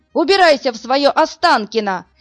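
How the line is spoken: Yell. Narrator (Russian): заорал Ложкин

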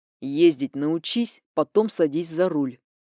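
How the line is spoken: Through gritted teeth. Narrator (Russian): процедил мой новый знакомый

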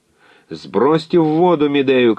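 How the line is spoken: Shouting. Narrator (Russian): кричал Экалаид

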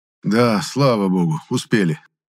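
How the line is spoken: Relieved sigh. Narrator (Russian): Облегченно вздохнул он

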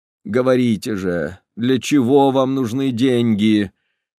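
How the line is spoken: Moaned. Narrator (Russian): простонал Кашперов

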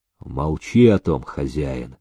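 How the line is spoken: Muffled hollow reply. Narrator (Russian): глухо отозвался перстень

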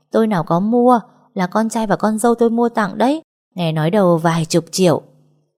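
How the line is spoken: Laughing loudly. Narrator (Vietnamese): Bà Tám cười lớn còn hơn là người ta xem hài

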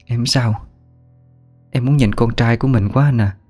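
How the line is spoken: Soft weak reply. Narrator (Vietnamese): Thảo giọng khẽ đáp

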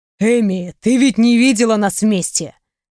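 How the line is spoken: Snorting chuckle. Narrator (Russian): хмыкнул он

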